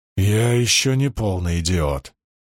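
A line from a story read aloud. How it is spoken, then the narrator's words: Growl. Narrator (Russian): прорычал Перин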